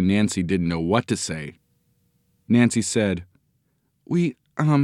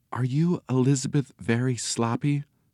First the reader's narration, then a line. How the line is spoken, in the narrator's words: She whispered